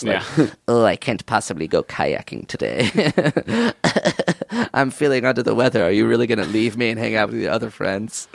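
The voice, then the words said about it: Put-on sort of Italian accent. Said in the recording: “What accent is that? ... He's sort of Italian.”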